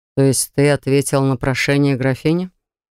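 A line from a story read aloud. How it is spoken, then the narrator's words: Suspiciously calm inquiry. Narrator (Russian): Подозрительно спокойно поинтересовался Даррен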